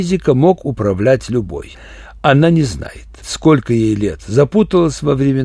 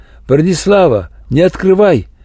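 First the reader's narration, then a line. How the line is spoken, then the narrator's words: Shout. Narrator (Russian): Валерий Яковлевич крикнул мне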